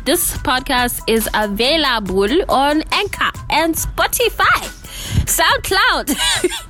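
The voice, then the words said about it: Put-on accent. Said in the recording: “I don't know why I'm doing that accent.”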